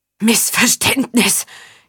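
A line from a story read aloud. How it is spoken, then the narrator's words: Gasping while pinned down. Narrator (German): japste Faun, während ihn der Stiefel des Johanniters noch immer auf den Boden drückte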